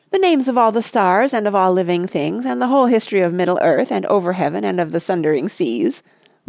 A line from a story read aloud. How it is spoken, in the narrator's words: laughed Pippin